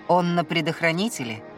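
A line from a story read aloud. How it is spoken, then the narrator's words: Overly calm male voice. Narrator (Russian): Чересчур спокойно осведомился мужской голос сбоку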